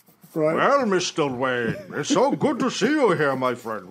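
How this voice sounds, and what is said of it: Sean Connery impression. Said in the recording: “He does Sean Connery like.”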